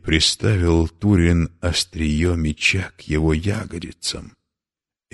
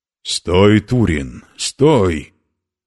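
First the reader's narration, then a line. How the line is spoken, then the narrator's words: Shouting. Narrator (Russian): кричал Маблунг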